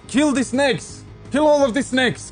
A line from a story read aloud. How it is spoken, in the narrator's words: The sand walker shouts down at you and says